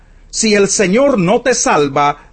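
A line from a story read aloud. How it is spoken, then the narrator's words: Plain answer. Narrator (Spanish): respondió el rey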